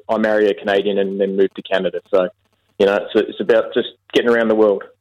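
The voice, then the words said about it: Australian accent. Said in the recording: “I live in Canada, but I'm an Aussie... you don't sound like producer Andy”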